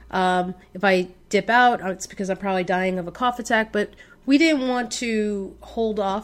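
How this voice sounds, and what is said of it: Sick, under-the-weather voice. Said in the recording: “Still a little bit under the weather, as you can probably hear from my voice.”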